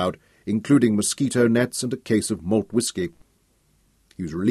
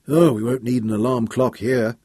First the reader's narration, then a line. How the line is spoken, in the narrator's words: he groaned